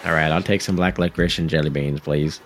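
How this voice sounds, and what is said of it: Affected put-on voice. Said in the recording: “Why are you talking like that? ... They're putting on an air. They're putting on a voice.”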